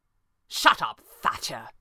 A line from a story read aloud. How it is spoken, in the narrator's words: Pavli snapped, as one might do to a dog